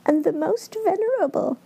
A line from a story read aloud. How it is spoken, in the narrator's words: piped Owen, voice thin and tweeting as her brother's